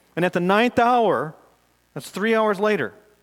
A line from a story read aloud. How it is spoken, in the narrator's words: Jesus cried with a loud voice